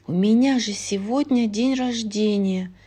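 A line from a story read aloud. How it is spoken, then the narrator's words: Young woman sighing. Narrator (Russian): вздохнула молодая королева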